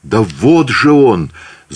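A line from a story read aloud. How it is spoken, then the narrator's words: Terrified shout. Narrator (Russian): закричал Павел в ужасе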